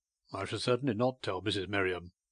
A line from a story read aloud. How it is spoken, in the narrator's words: he replied dryly